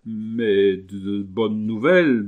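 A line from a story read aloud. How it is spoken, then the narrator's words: Stammering question. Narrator (French): demanda en bégayant Muller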